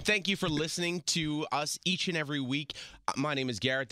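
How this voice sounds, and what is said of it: Hoarse, worn-out voice. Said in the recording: “Excuse my voice. I have party boy voice. ... It's quite sexy. ... Hurts like hell.”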